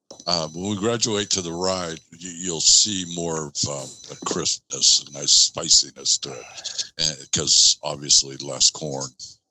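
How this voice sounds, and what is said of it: Smooth radio-announcer speaking voice. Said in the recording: “has such a radio voice.”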